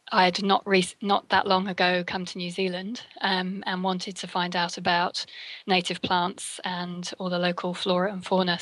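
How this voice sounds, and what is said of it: English accent, slightly faded. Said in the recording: “There's a English accent there? ... It's probably a little bit mangled by now. ... the UK accent”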